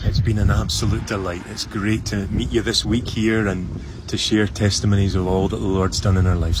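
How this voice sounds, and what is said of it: Scottish accent. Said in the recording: “go to Scotland ... he's got a great accent”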